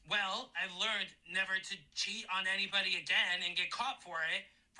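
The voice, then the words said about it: Imitates another person's voice. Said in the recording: “good impression... an impression of him doing Sandoval... pretty nailed on”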